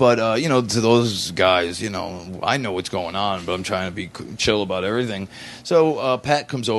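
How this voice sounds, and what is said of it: Usual voice. Nothing is said of it.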